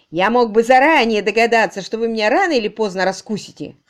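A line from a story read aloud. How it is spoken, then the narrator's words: Laughing loudly. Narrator (Russian): хохотал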